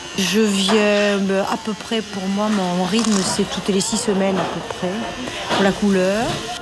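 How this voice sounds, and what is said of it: Southern French accent. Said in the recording (French): “j'ai gardé mon accent. J'ai gardé l'accent du Midi”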